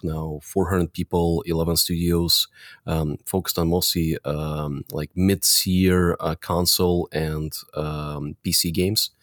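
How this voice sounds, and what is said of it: Eastern European accent. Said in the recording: “you can probably tell by my accent, we started out helping developers, a lot of developers from Eastern Europe”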